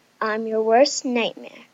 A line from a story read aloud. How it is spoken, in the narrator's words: the thing said in a scary and deep voice